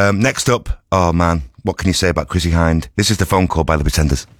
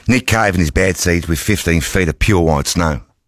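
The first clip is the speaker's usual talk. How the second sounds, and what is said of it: Put-on Australian accent. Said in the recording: “my Australian accent”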